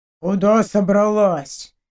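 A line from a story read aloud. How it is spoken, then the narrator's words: Quiet, menacing question. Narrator (Russian): Тихим, но грозным голосом поинтересовался хранитель 36-й комнаты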